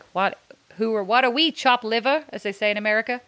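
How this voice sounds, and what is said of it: Weak put-on American accent. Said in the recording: “that example that you just heard there was why I don't do American accents. ... You're not good at them. ... I am not known for my American accent.”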